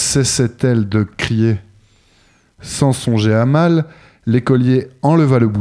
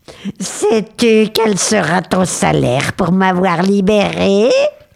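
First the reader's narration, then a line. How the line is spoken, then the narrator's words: Dreadful voice. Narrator (French): demanda-t-il d'une épouvantable voix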